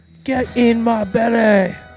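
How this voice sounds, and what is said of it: Fat Bastard Scottish accent impression. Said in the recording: “Scottish accent ... the one Mike Myers uses in his character as Fat Bastard in the Austin Powers series”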